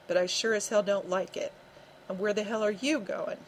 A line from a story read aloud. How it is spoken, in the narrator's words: he asked sharply